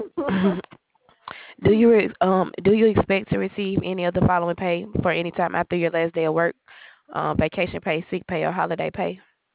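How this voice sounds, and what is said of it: Hoarse, fading voice. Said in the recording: “my voice is just trying to go away.”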